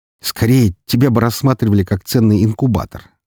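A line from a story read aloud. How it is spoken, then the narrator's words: Snorting smirk. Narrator (Russian): хмыкнул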